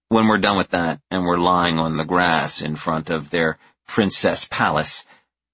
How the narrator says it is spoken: I sigh

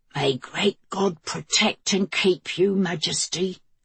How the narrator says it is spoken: the woman rasped

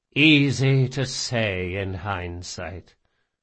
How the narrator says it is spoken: the Grey King sighed

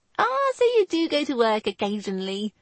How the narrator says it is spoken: the sweetly sarcastic voice of his sister

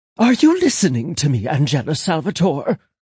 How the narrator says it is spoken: Millie was near panting, sounding as if she was speedwalking down the sidewalk

